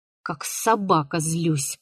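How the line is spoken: Angry grumble. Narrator (Russian): проворчал он, сжимая кулаки

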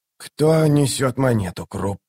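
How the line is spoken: Strained wheeze. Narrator (Russian): сдавленно прохрипел он

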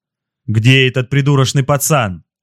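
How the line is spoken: Roaring. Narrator (Russian): взревел он

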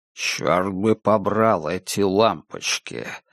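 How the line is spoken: Grumbling. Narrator (Russian): ворчал он

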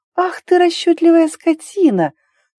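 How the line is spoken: Tender singsong. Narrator (Russian): пропела Ари ласково, по нежным ноткам в голосе

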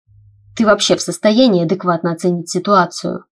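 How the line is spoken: Hissing question. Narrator (Russian): с шипением в голосе спросил меня Тайлер

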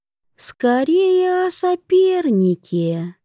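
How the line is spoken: Sweet sing-song voice. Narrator (Russian): ангельским голосом пропело ее высочество

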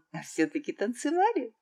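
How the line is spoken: Laughing princess. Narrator (Russian): рассмеялась цесаревна

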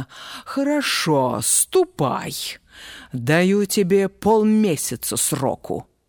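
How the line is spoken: Angry, curt. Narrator (Russian): Царь бросил злобно

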